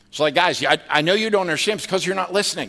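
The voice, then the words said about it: Scolding mom voice. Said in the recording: “mom voice”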